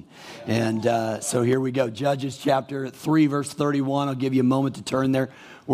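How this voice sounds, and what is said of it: Hoarse, quiet voice from a cold. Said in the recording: “in a still small voice, but I've got a little cold that went to my throat”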